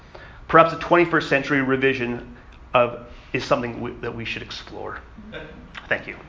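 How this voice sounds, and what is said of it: Canadian accent. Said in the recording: “It is a Canadian. It is a Canadian accent”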